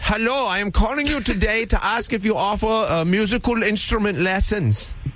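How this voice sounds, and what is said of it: Put-on Bavarian German accent. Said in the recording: “Klaus is back! ... a Bavarian friend ... accent?”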